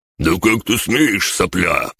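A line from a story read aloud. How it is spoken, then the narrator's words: Roared. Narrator (Russian): проревел рябой охотник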